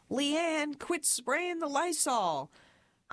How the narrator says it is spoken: My parents would yell

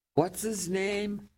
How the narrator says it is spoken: Teddy yelled at his aide

